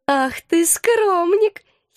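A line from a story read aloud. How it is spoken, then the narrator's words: Giggling. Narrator (Russian): хихикала она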